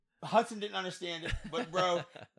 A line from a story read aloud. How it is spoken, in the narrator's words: I laughed